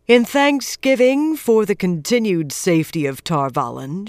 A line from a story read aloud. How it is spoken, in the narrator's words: she said, her voice carrying easily to everyone